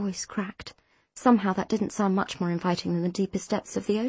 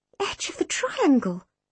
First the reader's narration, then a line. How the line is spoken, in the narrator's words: I gasped